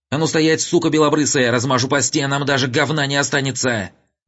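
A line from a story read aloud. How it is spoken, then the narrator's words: Hysterical high falsetto scream. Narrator (Russian): истерично завопивший тонким фальцетом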